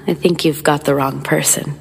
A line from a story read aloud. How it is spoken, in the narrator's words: With a little laugh, I replied